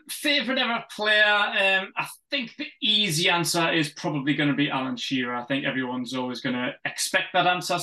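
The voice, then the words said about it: Newcastle English accent. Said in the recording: “your accent will give that away”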